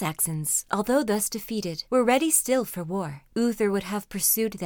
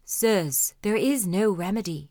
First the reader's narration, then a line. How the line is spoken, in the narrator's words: said Merlin